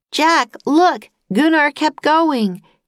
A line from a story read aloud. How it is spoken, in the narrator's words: yelled Annie